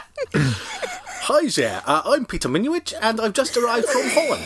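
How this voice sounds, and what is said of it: Put-on Dutch accent. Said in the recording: “Dutch is my favourite accent... I'm happy to do the Dutch accent”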